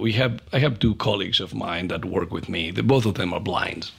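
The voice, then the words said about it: Non-native English accent. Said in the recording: “by my perfect English accent, English is not my native. I'm not the native speaker.”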